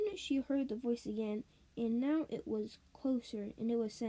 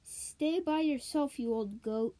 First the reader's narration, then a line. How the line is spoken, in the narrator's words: she hollered back